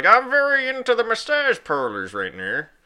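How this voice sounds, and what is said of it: Imitates another person's voice. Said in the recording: “my best Robert Kraft impression”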